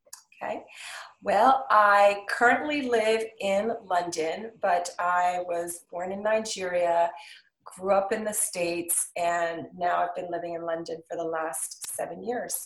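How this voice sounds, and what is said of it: American accent. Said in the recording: “I wasn't expecting American accent”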